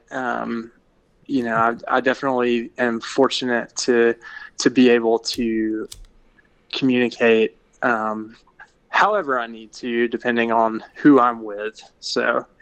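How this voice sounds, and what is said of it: Polished, articulate radio voice. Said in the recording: “this is my radio voice, and I guess I better be as articulate and intelligent as possible”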